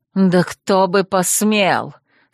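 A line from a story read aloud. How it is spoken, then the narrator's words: Through gritted teeth. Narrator (Russian): сквозь зубы проговорил Душан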